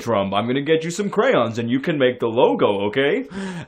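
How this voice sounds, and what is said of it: Generic family dad voice. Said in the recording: “I'm going to do generic nuclear family dad.”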